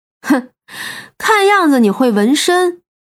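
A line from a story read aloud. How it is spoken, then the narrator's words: Young man, smiling. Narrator (Chinese): 那青年人笑了笑道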